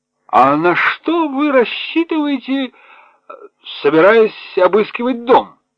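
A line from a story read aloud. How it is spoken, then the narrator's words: Thundering voice. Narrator (Russian): прогремел голос полковника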